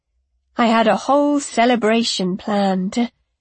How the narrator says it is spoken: Luenna said dreamily

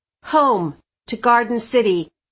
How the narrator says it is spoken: I said firmly

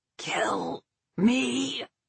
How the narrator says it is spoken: he croaked

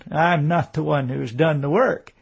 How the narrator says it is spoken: he chuckled

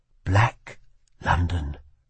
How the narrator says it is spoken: whispered the Prince Regent

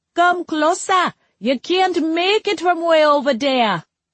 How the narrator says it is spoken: one of the boys yelled

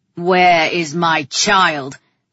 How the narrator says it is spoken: He growled

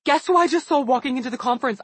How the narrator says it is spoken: I blurted into the phone

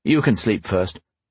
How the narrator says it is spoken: Gareth said

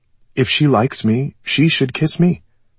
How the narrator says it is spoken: I said

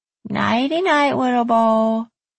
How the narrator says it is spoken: Danielle said in a silly voice

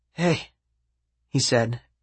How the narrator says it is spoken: his voice raspy

